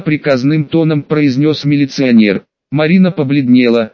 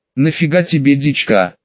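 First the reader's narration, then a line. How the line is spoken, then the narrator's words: Quiet question. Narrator (Russian): Спрашиваю девушку тихим голосом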